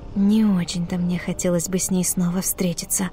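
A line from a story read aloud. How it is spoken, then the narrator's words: Quiet mutter. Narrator (Russian): тихонько пробормотала Мисса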